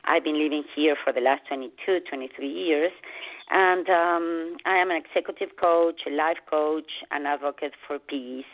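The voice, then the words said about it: Argentine Spanish accent. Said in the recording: “I have an accent and I'm originally from Argentina”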